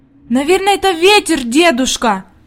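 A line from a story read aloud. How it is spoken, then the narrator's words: Anxious exclamation. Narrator (Russian): воскликнула Хади, и в глазах ее появилась тревога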